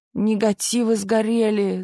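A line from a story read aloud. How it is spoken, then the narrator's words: Groaning. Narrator (Russian): застонал Мишка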